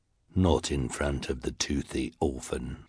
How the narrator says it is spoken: said in her deep, deep voice

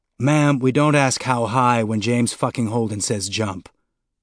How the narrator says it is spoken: the officer growled back

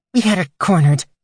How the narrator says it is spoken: said through gritted teeth

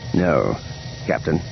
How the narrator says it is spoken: he murmured

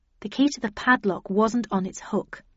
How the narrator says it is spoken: I murmured

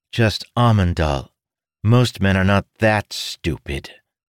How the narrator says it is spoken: Dougal said with a sigh

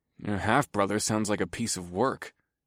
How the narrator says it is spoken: I muttered

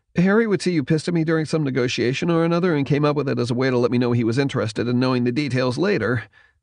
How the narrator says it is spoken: Schmidt said quickly

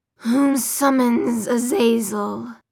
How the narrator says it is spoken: His voice was like metal grinding on metal

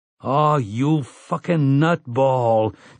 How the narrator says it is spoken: George Nort groans

